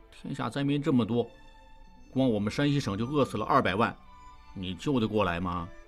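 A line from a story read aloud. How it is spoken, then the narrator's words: Grumbling mutter. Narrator (Chinese): 常栓在一旁嘟囔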